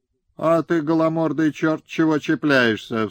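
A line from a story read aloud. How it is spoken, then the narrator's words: Angry shouting with swearing. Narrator (Russian): закричал Лысов на Безбородова, Безусова Горшкова и выругался матерно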